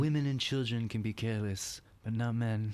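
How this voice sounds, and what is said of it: Vito Corleone impression. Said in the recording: “do a Vito impression the whole episode”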